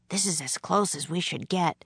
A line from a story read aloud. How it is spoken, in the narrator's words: whispered